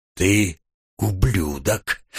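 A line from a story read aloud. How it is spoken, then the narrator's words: Whispered. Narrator (Russian): прошептал я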